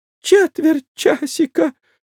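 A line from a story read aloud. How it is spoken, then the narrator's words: Shrill squeal. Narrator (Russian): взвизгнул Моисей Моисеевич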